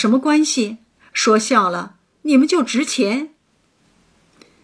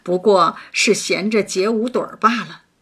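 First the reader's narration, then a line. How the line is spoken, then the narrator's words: Laughing. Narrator (Chinese): 王一贴笑道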